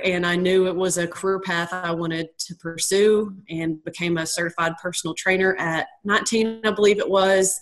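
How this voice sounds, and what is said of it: Southern American accent. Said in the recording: “that explains the accent. Southern girl. So Can't shake it.”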